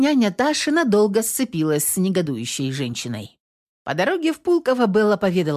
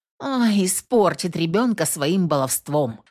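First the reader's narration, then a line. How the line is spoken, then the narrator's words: Grumbling. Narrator (Russian): ворчала Белла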